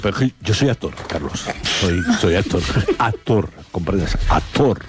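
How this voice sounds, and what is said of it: Theatrical put-on actor voice. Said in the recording (Spanish): “necesitas poner voz de actor para decir que eres actor”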